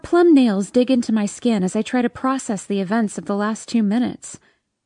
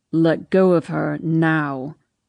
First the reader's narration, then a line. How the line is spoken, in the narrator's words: he says through gritted teeth